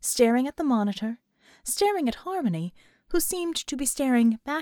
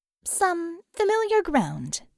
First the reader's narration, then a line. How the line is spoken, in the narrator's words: Harmony answered, her voice crisp and lively over the speaker in Bull's office